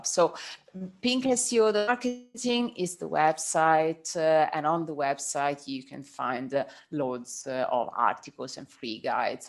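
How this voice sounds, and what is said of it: Italian accent in English. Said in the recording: “my Italian accent”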